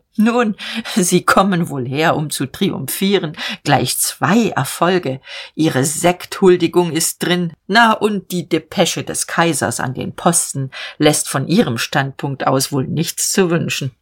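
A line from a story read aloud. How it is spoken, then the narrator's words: Brief laugh, then speaking. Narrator (German): lachte kurz und sagte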